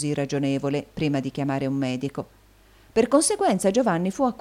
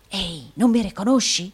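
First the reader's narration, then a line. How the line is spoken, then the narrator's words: Whispering. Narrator (Italian): bisbigliò il provinciale del Yorkshire al giovane sbalordito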